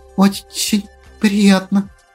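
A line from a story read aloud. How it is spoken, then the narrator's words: Nervous little girl stuttering. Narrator (Russian): заикаясь от волнения, произнесла девчушка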